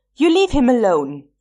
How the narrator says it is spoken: he yelled

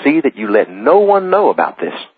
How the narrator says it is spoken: Jesus earnestly and sternly charged them, saying

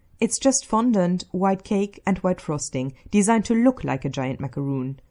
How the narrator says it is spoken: Stiles says brightly

